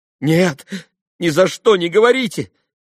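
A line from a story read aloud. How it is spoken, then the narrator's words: Frightened cry. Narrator (Russian): испуганно вскрикнула Катя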